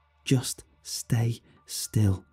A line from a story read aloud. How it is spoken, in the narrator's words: she whispered, as tears started to form in her eyes